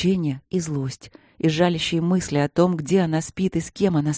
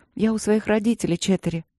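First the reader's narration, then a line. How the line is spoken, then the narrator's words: Tired, gently reproachful. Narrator (Russian): устало сказала Светлана, словно мягко упрекая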